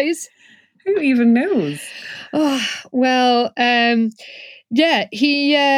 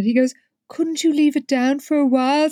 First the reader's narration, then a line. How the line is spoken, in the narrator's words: Stephen asked wistfully